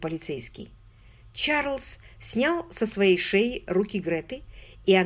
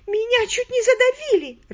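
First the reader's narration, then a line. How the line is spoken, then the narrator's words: Sobbing. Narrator (Russian): рыдая, повторила Грета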